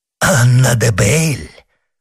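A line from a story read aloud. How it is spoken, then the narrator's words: Exclaimed. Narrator (Russian): воскликнул монах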